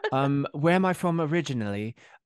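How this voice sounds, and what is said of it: Bad put-on English accent. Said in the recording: “Is there an English twang? ... Now that's a really bad accent, and I'm sure every British person would be like, "What are you talking about? That's not how we sound."”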